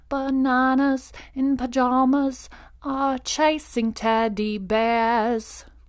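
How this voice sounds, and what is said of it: Put-on English accent, sung. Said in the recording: “it's like in this English accent.”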